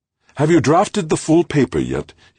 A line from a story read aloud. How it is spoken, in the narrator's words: asked eagerly